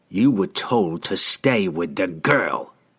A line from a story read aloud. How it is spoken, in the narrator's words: he hissed